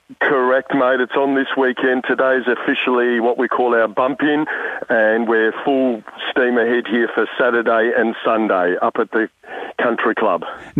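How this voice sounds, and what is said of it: Tired, worn-sounding voice. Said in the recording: “Sorry for my voice. ... I'm a bit still tired”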